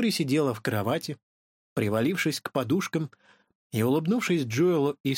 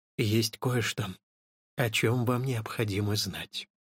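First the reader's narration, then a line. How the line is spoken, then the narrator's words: Quiet. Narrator (Russian): тихо произнесла Флори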